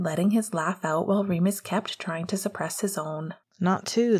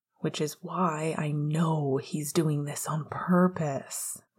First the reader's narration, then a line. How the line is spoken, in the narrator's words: groaned, though he couldn't bother to be surprised